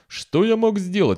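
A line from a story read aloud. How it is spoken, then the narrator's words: Exclaimed. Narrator (Russian): воскликнул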